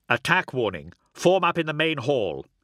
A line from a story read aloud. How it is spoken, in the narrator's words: he snapped